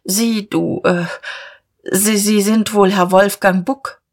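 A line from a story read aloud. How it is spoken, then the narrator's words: Stammered. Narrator (German): stammelte Dieterich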